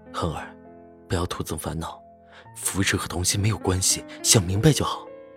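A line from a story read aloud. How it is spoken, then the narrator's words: Deep, grave voice. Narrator (Chinese): 赵世南牵起杜恒的手，沉声道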